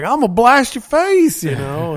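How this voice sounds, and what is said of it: Put-on Southern accent. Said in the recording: “southern accent. Yeehaw.”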